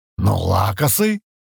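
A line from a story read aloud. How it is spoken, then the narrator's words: Babbled. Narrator (Russian): пролепетал Крен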